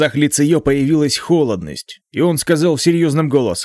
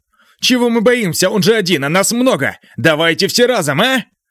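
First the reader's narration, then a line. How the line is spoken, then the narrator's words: Brave student shouting loudly. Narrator (Russian): Громко прокричал очень храбрый ученик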